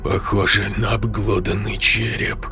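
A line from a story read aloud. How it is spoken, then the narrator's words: Hoarse, dry-lipped voice. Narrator (Russian): хрипло, облизав засохшие губы, сказал Анатолий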